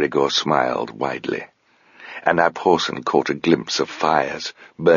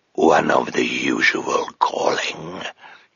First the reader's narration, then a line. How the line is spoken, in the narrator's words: he croaked